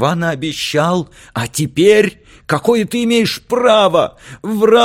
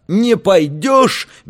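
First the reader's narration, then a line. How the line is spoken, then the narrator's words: Furious shout. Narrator (Russian): бешено крикнул Алька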